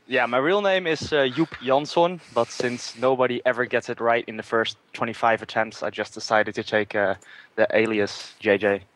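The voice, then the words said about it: Dutch accent. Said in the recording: “his accent, he is from the Netherlands”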